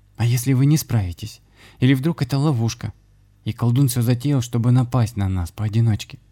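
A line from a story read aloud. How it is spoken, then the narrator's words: Frightened girl. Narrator (Russian): испуганно проговорила девушка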